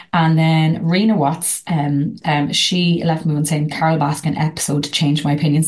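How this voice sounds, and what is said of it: Irish accent. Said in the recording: “I love your voice, Irish accent”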